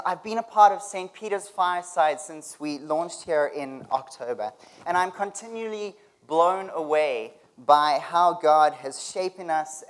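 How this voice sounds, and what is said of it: South African accent. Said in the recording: “talking to us with a funny accent? ... I'm from South Africa”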